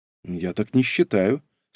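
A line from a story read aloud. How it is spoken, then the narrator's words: Calm remark. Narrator (Russian): спокойно заметила Ольга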